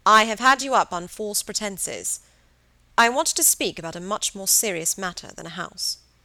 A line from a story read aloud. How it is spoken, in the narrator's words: his voice was firm